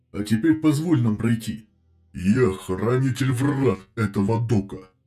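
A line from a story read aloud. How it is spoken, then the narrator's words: Corsair growling through helmet speakers. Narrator (Russian): прорычал корсар сквозь вокс-динамики шлема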